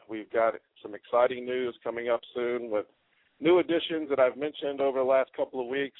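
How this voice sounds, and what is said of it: Hoarse, croaky voice from a cold. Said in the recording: “I've got a little cold ... I apologize about the voice this morning. Kind of sound like a frog.”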